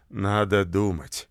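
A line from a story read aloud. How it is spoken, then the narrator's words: Gloomy agreement. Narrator (Russian): мрачным тоном согласился Бобби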